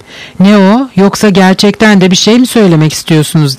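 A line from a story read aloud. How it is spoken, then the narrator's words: Plain. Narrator (Turkish): dedi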